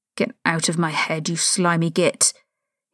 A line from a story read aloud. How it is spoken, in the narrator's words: he snarled in a low voice